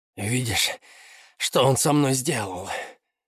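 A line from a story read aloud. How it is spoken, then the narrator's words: Hoarse. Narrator (Russian): хрипло сказал Джан Минлай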